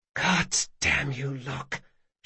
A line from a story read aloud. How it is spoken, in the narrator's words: she whispered